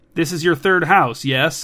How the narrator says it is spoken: asked Evelyn

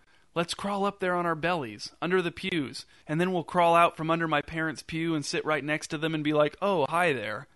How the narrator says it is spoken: laughing as he whispered

